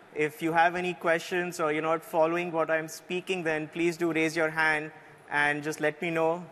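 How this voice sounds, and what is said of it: Indian English accent. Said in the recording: “My accent is going to be a little different. Like, I'm of Indian origin”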